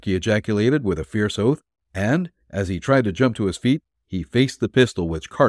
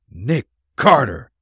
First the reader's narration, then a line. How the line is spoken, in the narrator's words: gasped